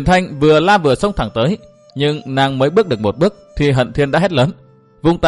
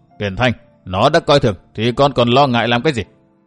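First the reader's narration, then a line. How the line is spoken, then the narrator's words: Cold sneering laugh. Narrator (Vietnamese): Bỗng nghe Hận Thiên cười nhạt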